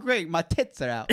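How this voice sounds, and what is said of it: Put-on British woman's accent. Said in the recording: “the British one ... Like, with her accent, though.”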